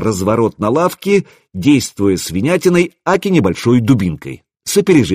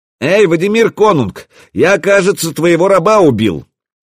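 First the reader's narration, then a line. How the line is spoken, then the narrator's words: Very loud yell. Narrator (Russian): Заорал я так, что не услышать меня было трудно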